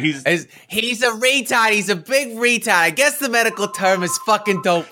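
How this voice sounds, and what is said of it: Poor imitation of another person's voice. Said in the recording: “that was a shit impression of Gilbert Gottfried”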